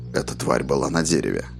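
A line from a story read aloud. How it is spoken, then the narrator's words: Soft. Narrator (Russian): мягко сказал Роланд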